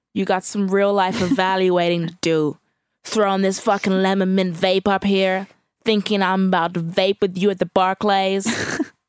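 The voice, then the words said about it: Imitates another person's voice. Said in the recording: “in my best Drake voice ... I think the pitch was quite good.”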